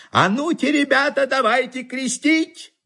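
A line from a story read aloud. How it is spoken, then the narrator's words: Shouting. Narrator (Russian): закричит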